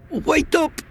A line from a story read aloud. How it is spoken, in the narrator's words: I hollered